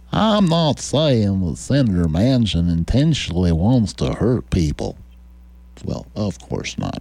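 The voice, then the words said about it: Louisiana accent imitating Senator John Kennedy. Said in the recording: “Foghorn Leghorn cosplayer Senator Joe Kennedy from Louisiana ... Good Louisiana accent.”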